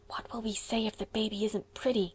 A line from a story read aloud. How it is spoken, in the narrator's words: whispered Diana in trepidation